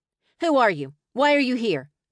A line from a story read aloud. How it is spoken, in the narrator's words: she barked